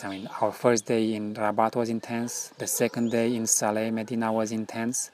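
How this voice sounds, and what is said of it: Non-native English, foreign accent. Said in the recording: “poor English with my foreign accent”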